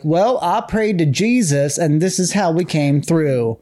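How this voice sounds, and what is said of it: Put-on Bible Belt accent. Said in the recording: “I love that accent you're doing ... Bible Belt ... The Bible Belt has an accent”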